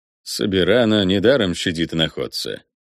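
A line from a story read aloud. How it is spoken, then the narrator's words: Soft purr. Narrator (Russian): тихонько мурлыкнул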